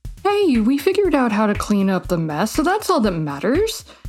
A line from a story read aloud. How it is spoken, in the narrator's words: Becca replied cheerfully